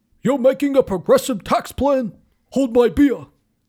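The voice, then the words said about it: Imitates another person's voice. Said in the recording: “that was a really good Bernie impression. ... I pride myself on my Bernie impression.”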